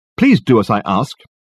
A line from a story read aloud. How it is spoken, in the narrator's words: he snapped angrily